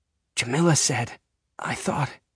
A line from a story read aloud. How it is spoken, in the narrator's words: I whisper, still overwhelmed